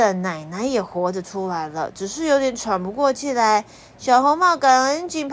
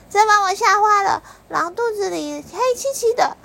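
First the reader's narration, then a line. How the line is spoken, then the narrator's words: Little girl crying out. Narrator (Chinese): 小姑娘便跳了出来，叫道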